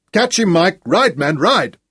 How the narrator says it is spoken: faint shouts behind him

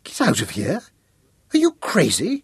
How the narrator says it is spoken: She rounded on him furiously

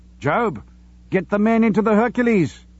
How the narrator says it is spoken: he shouted

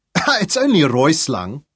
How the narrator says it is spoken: Dirk laughed again, but nervously

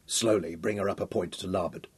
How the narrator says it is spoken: Hal said quietly to the helm

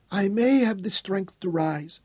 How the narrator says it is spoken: she whispered

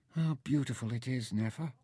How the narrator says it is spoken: Mintaka spoke almost dreamily

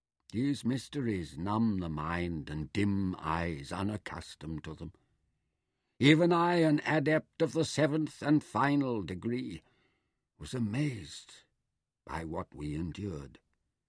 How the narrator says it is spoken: Taita explained kindly

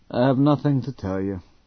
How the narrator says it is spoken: said Sir Francis in a disinterested tone

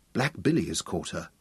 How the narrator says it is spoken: gasped Guy

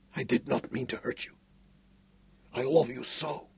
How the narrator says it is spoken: whispered

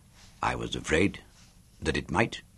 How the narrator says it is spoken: he said softly

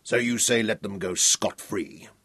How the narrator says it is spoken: Sir Francis asked coldly, his face close to Howell's

